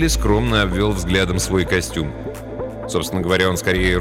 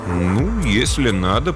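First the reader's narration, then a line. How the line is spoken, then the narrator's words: Mumbling. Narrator (Russian): промямлил Смэдли Фейвершем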